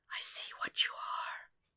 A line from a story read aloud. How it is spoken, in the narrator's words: Budish whispers